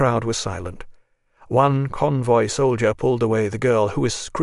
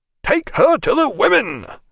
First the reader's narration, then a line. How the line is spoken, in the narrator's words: shouted the officer